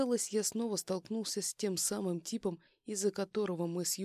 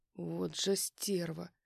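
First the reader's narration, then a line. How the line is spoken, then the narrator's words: Growling. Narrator (Russian): прорычал я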